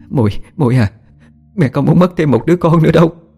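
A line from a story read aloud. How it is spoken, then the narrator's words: Frightened mother. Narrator (Vietnamese): Mẹ sợ hãi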